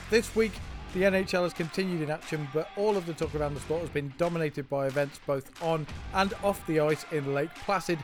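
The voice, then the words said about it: British accent. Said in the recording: “we talk hockey with a British accent”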